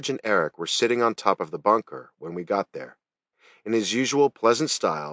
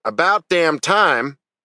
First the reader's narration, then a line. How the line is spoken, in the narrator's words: he shouted